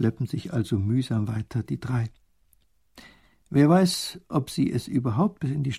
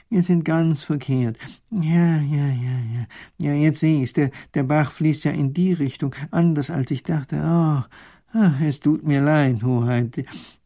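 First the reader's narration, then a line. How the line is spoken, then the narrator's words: Professor groaning. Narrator (German): stöhnt der Professor auf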